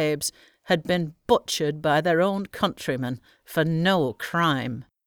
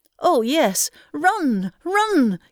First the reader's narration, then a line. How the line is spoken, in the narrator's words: cried the mother